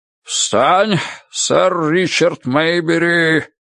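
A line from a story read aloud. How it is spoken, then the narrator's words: Roared. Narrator (Russian): проревел он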